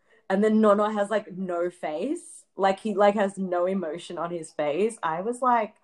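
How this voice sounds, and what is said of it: Usual voice. Nothing is said of it.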